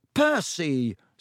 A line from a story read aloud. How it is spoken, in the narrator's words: said Ron angrily